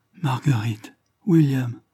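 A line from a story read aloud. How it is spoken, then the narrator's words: Broken, halting voice. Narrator (French): répondit d'une voix entrecoupée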